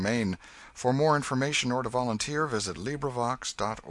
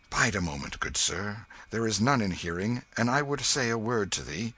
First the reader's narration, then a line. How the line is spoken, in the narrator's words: Hendon said in a low voice